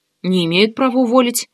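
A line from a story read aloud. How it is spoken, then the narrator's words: Mumbling with full mouth. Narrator (Russian): с набитым ртом пробурчала Ксюха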